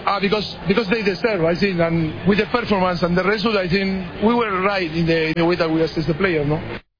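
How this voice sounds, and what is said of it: Fast speech, rough foreign accent. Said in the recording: “It wasn't his best English ... He talks fast with the accent. It is a little rough.”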